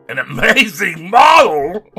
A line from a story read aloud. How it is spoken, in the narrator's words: shouted Trevor at the top of his voice